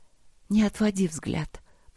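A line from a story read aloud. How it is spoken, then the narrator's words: Whisper. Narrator (Russian): прошептала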